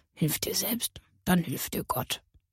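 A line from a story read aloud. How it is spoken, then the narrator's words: Quiet murmur. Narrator (German): ihn leise murmeln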